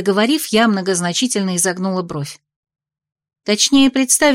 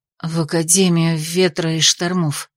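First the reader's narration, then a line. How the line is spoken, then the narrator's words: Reluctant, through teeth. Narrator (Russian): процедила та нехотя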